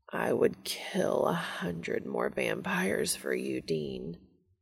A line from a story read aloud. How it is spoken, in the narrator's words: Castiel moans